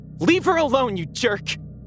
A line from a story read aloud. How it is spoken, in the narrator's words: I yelled